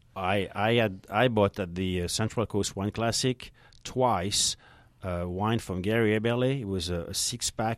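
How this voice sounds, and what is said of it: French accent. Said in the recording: “I'm so Francophile, even after 27 years. ... Well, you got the accent.”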